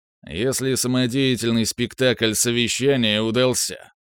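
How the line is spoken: Grumbling. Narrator (Russian): заворчал президент Йорзе

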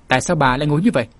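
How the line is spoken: Angry question. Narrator (Vietnamese): giận dữ hỏi

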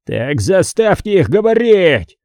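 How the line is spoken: Yelling. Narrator (Russian): завопил Харрисон

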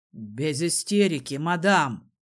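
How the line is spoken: Barked. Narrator (Russian): рявкнул на нее Дезмонд

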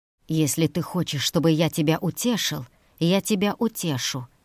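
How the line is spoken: Hiss. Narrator (Russian): прошипел он

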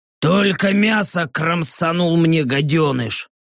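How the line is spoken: Grumbling orc. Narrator (Russian): проворчал орк

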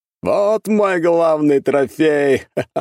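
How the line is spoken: Hearty laughing. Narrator (Russian): От души засмеялся

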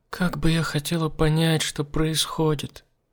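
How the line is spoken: Sad. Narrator (Russian): грустно произнесла она

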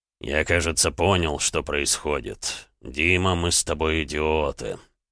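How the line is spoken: Quiet. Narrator (Russian): наконец тихо произнес Эдуард

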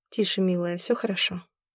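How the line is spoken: Soft voice. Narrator (Russian): мягко сказал Яр

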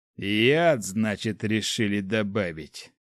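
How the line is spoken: Grated through teeth. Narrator (Russian): Сквозь зубы проскрежетал он

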